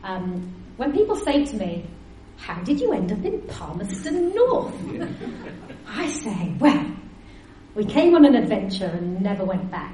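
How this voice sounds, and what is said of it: Northeast English accent. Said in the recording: “you might have gathered from my accent that I am not from round these parts originally. ... I still sound like I've just flown in from the northeast of England”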